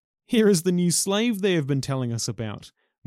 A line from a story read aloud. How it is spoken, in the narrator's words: one of them laughed